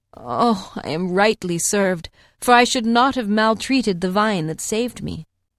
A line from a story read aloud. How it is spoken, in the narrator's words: The hart, at the point of death, groaned